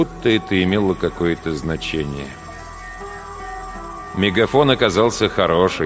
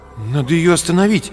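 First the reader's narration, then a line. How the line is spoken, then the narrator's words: Uncertain. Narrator (Russian): неуверенно сказал Артем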